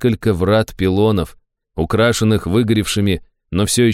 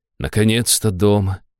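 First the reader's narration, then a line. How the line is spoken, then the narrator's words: Happy sigh. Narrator (Russian): счастливо вздохнула Аштира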